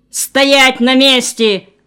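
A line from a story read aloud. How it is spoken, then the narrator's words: Barked. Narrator (Russian): рявкнул один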